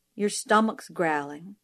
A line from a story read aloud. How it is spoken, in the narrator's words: I said